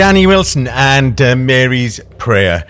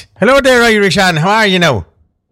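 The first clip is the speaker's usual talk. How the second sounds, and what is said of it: Put-on Irish accent. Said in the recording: “let me get my accent right before ... I think my accent's doing right there now”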